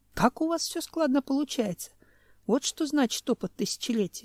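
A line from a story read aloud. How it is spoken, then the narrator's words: Sighed. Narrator (Russian): вздохнул Семен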